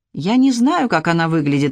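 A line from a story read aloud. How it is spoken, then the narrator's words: Sighed. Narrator (Russian): вздохнул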